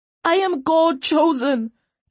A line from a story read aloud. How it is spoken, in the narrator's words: Tane screamed at the executioner